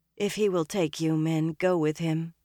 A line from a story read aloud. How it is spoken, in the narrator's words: Egwene said wearily